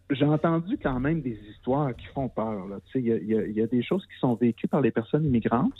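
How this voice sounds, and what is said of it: Lac-Saint-Jean Quebec French accent. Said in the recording (French): “excusez mon accent, je viens du Lac-Saint-Jean ... je peux avoir un peu d'accent des fois”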